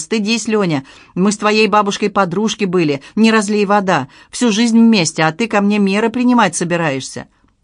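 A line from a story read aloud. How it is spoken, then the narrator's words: Old woman's indignant shout. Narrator (Russian): Старушка из толпы возмущенно выкрикнула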